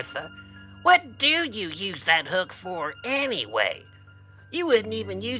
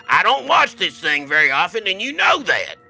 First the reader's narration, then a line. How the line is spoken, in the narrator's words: yelled the guy with the hook